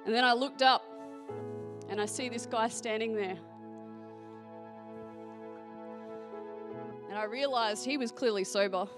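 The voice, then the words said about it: Australian accent. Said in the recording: “you're Australian, hearing my accent”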